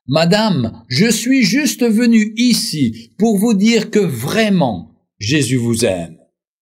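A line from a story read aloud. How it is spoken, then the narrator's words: Sweet childlike exclamation. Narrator (French): Il s'écria d'une voix de chérubin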